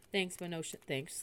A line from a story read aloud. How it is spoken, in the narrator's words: Lily says